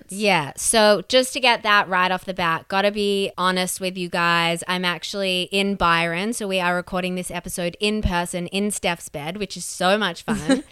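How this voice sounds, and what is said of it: Voice lower than usual. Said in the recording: “I know my voice sounds lower than it usually does.”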